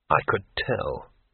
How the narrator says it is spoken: muttered Rincewind

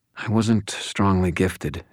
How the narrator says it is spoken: she said

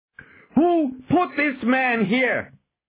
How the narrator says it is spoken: shouted as he saw the dying prisoner

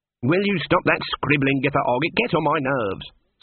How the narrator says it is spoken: snapped Granny

